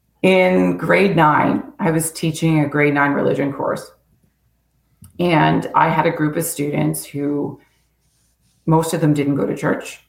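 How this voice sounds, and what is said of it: Strained, fading hoarse voice. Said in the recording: “sorry, I'm losing my voice.”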